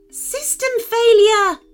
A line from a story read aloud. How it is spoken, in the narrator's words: shrieked Iron Chicken as the red plasma beam struck him